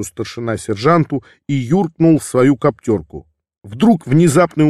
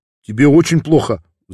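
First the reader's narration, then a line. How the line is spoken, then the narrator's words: Worried question. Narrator (Russian): взволнованно спросил Леша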